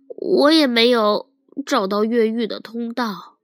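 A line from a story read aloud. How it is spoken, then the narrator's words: Sighing. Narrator (Chinese): 米洛叹息说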